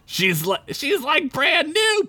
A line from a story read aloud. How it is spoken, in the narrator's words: Peppercorn shouted from inside the van